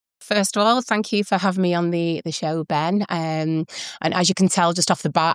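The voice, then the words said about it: Strong Mancunian accent. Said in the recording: “I am a true Manchester native. My accent has not faded one little bit.”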